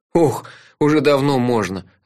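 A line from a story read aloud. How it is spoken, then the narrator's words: Sighing. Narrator (Russian): вздохнул я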